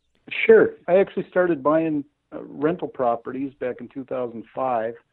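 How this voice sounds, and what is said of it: Minnesota accent. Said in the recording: “his Minnesota accent”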